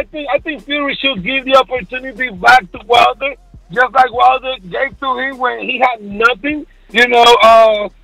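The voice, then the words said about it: Caribbean Puerto Rican accent. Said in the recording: “that don't sound like no Mexican Spanish accent, that, you know, American accent. It sounds more Caribbean ... that's a fucked up accent”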